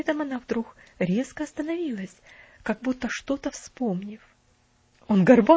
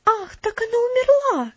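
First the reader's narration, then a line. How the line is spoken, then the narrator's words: Heartfelt exclamation. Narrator (Russian): воскликнула она с чувством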